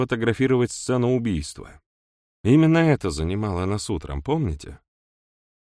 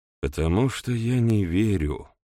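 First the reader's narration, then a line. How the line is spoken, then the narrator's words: Gloomy admission. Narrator (Russian): мрачно признался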